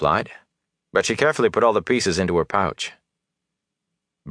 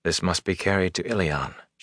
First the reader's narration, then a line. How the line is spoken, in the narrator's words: she said softly